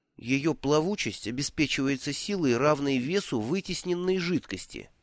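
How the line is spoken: Listless muttering. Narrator (Russian): вяло пробормотал Бруто

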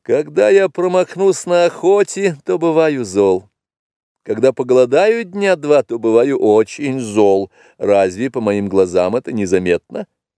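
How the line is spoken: Laughing answer. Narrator (Russian): тот ответил ей, засмеявшись

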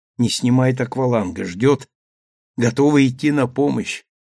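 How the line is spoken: Old man's whisper. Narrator (Russian): шепнул старый капитан Сандре

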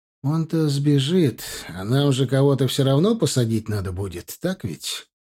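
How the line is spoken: Gentle, affectionate. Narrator (Russian): ласково сказал он парторгу

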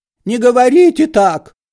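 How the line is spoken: Frightened shout. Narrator (Russian): закричал перепугавшийся Паниковский

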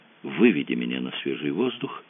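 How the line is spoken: Whisper in ear. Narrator (Russian): шепнула на ухо Мэгги

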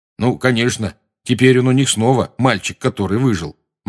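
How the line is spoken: Gloomy. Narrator (Russian): мрачно заметил Рон

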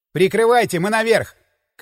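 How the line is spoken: Shouted. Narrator (Russian): крикнул я

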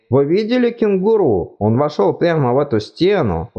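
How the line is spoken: Excited exclamation. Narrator (Russian): возбужденно воскликнул Ринсвин

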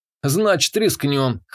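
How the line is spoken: Wry grunt. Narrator (Russian): хмыкнул я

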